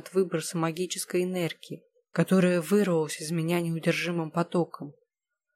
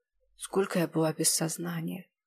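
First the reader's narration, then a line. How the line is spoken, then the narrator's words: Hoarse quiet question. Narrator (Russian): Хрипло и тихо спросила я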